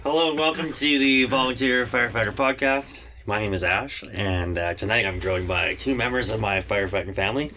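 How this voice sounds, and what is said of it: Deep radio-style voice. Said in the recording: “You have that deep radio voice.”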